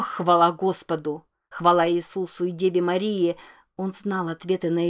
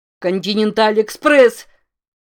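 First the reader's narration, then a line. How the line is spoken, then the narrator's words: Disbelieving joyful shout. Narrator (Russian): Не веря своему счастью, закричал Рамон, находясь теперь, как ему казалось, в нескольких милях от собственного голоса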